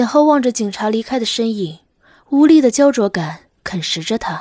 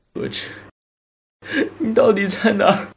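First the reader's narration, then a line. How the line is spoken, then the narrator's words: Sudden inner voice. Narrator (Chinese): 心中骤然响起一个久违的声音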